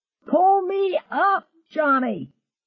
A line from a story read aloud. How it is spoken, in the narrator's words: screamed